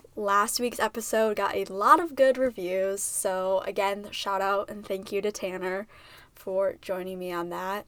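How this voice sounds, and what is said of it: Sick-sounding voice from a cold. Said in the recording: “I sound sick ... I'm just getting over a little cold”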